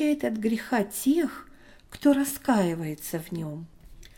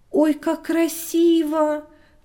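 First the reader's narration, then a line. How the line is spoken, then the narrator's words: Delighted exclamation. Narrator (Russian): воскликнула Таня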